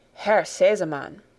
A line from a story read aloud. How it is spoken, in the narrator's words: began the lady in a solemn voice